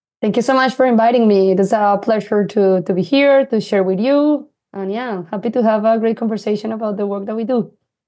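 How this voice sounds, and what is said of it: Colombian Latino accent in English. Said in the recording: “your accent that you are Colombiana from Colombia ... my accent, I think, is a bit of Latino accent”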